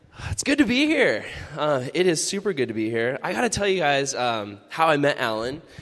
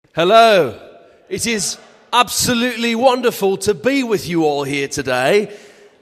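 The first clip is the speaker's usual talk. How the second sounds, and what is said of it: Fake British accent. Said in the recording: “Oh, British. No, I'm a Californian. I talk like a normal person.”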